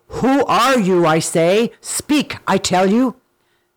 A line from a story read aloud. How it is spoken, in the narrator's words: Simba roared out angrily